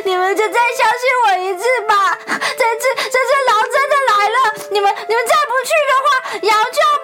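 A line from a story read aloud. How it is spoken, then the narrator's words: Anxious child sobbing. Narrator (Chinese): 男孩着急地大哭起来，边哭边说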